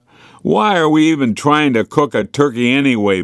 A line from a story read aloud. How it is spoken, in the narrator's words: bellowed Maria